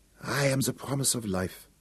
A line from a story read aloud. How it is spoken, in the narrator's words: she whispered from the ancient coffin